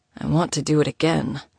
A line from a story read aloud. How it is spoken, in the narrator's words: he rumbled